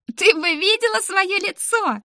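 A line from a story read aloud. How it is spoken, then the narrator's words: Sobbing laughter. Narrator (Russian): еле разобрала я из-за ее всхлипов и смеха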